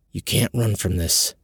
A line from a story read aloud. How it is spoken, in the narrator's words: whispered